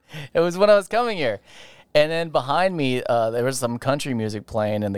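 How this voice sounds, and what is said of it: Usual voice. Nothing is said of it.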